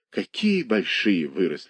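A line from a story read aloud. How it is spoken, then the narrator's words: Soft. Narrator (Russian): сказала она мягко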